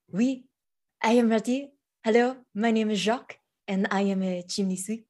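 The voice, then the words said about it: Bad fake French accent. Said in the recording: “Your accent is almost as bad as Noxious as Jim, but I love it. ... I can't understand what you're saying. ... C'est français.”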